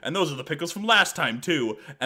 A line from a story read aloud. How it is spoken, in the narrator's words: a random woman yells